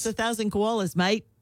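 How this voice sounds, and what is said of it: Put-on New Zealand accent. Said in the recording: “You nailed that New Zealand accident... Accent... if you say mate at the end of it, that makes it an Australian, New Zealand accent.”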